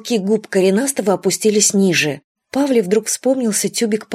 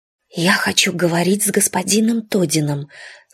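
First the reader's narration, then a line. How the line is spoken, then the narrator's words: Whisper. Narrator (Russian): сказала она шепотом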